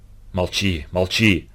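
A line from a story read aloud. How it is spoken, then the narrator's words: Hoarse wheeze. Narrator (Russian): прохрипел Прохор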